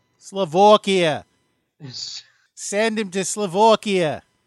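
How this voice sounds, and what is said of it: Mock Massachusetts accent. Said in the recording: “I'm going to keep doing this. I'm sorry. ... I apologize to anyone who's listening from Massachusetts. I can't help myself.”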